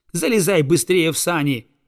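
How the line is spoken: Angry shout. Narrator (Russian): сердито крикнул он, злясь на самого себя за то, что вернулся

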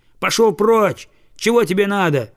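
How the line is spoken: Shouting. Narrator (Russian): крикнул он

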